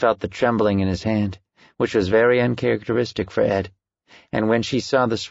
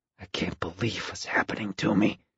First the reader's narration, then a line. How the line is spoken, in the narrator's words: whispering in her ear